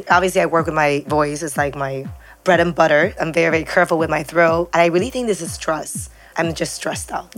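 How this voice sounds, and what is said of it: Raspy, husky voice. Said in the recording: “your sexy voice today? ... I'm a little raspy this morning ... the raspiness”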